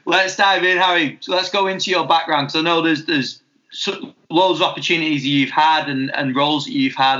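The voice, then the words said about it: Wigan English accent. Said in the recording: “my Wiganese tones”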